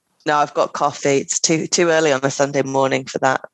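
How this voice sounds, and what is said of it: Croaky voice from a cold. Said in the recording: “I have a little bit of a cold, so I sound a little bit croaky... clearing my throat and being generally croaky”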